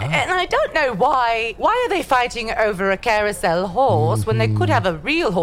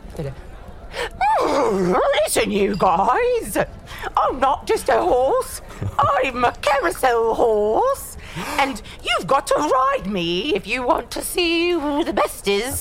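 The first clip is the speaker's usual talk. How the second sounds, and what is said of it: Silly horse character voice. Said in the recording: “do a horse voice? ... Let me do a horse voice.”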